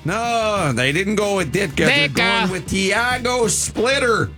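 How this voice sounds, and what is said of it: Exaggerated Chicago accent. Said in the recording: “Your Chicago accent has really become transcendent... For a dude who's never spent a day in that city, you pretty much got this in lockdown.”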